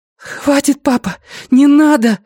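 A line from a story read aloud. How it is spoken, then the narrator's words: Breathless. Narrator (Russian): выдохнула Люми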